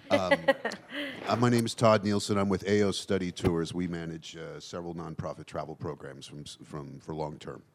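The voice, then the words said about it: Hoarse, fading voice. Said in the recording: “I've been losing my voice.”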